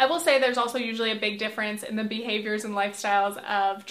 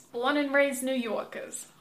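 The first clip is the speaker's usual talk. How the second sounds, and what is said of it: Exaggerated New York accent. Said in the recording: “Horrible accent. I'm sorry, I just had to do it.”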